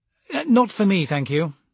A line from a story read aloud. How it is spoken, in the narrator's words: Brocklaw said hastily